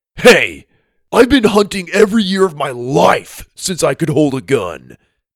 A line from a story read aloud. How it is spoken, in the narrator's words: Dallas snapped back